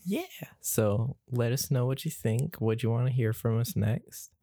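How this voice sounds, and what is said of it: NPR-style radio voice. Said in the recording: “slowly drifting into NPR voice”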